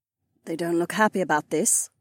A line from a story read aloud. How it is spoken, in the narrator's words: Kat muttered under her breath